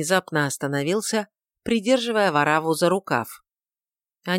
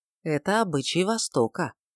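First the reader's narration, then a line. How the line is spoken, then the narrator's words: Calm. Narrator (Russian): ответил Мельхиор спокойно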